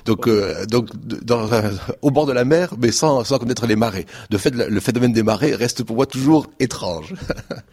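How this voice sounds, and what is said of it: Southern French accent. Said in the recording (French): “un accent du Sud”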